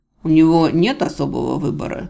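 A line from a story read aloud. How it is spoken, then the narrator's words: Calm reply after pause. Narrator (Russian): спокойно ответил полуэльф после очередной изумленной паузы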